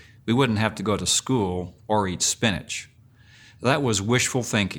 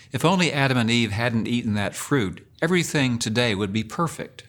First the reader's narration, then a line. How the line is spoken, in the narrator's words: we used to moan to each other